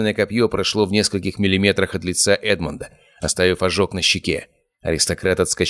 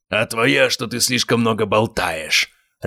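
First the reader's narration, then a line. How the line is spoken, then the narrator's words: Barked mid-fight. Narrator (Russian): рявкнул Гаспар, нанося серию ударов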